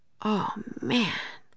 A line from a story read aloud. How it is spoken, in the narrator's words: whispered Jack